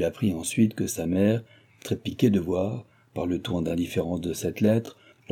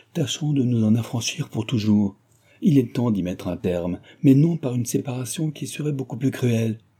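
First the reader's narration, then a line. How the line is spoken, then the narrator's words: Exclaimed. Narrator (French): s'écria Delville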